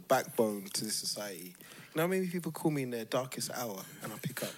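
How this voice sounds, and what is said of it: Lingering trace of a character accent. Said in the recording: “you still haven't left your character completely ... the accent is still it's still there, remnants”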